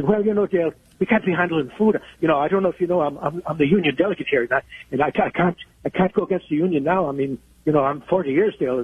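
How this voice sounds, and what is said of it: Put-on accent imitating someone. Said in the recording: “All this and accents, too”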